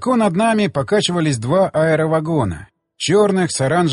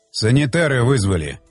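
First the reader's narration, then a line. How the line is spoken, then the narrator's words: Angry, through gritted teeth. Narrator (Russian): со злостью процедил Щербатин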